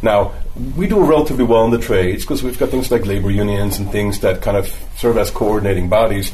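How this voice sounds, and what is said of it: German accent. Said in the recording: “if you might be able to tell from my accent that I'm German-born”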